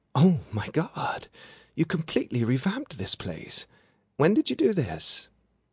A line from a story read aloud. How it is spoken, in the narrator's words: she gasped